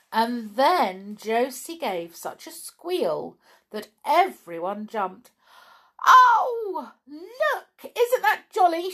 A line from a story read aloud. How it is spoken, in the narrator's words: she cried